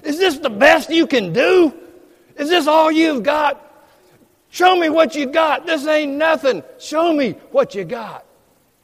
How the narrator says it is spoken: shouting

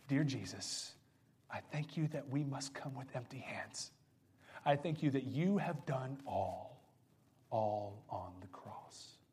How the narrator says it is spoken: with tears still streaming down her face, whispered

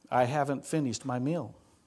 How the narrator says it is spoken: The truck driver calmly says

